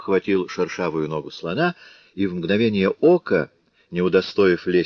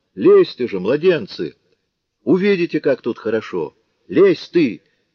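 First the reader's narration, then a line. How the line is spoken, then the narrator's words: Shout. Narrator (Russian): крикнул он старшему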